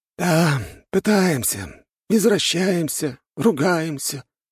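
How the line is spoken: Middle-aged man's sigh. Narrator (Russian): вздохнул мужчина средних лет

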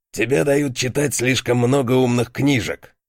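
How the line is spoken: Snorting older guard. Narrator (Russian): фыркнул старший страж

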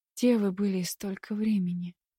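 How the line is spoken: Weak voice. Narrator (Russian): слабым голосом спросила она

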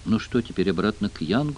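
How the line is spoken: Whisper. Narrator (Russian): прошептал Джефф

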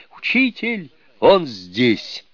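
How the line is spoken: Shout. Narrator (Russian): Суню-кун крикнул

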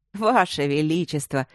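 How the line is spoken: Laughing. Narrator (Russian): рассмеялся Смитсон

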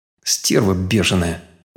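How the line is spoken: Grumble under breath. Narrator (Russian): Буркнул себе под нос

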